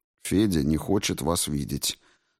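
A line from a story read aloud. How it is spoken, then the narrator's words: Calm objection. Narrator (Russian): спокойно возразил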